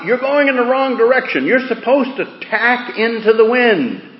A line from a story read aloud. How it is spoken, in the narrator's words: he hollered out